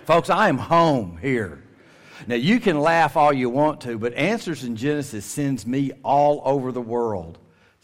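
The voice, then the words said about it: Strong rural Southern American accent. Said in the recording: “I don't have to apologize for my accent ... sounding like this ... Those folks thought Gomer Pyle had come to town ... did you really say reckon?”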